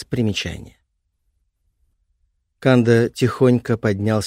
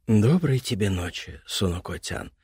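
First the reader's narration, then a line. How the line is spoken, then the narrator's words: Whispered. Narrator (Russian): прошептал Канда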